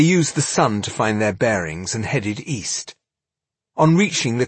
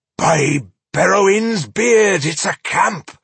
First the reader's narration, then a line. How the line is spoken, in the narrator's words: exclaimed Boindil